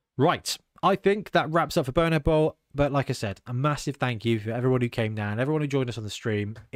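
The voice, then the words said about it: Worn-out voice after long talking. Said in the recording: “I'm still not fully healed from it yet, as you can probably hear in my voice ... you were talking for like 6 hours solid”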